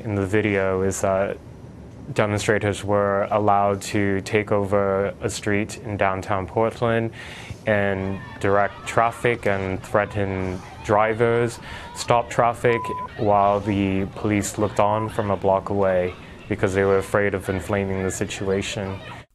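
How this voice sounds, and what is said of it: Fake British accent. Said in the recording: “accent ... that's his fake British accent ... he's not good at having a fake British accent ... He sounds like, what's his name, Sebastian Gorka ... he sounds a little bit like Fraser Crane”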